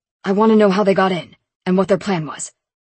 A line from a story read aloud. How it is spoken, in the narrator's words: Lincoln barked